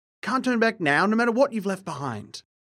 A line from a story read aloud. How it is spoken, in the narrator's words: he cried, his calm composure forgotten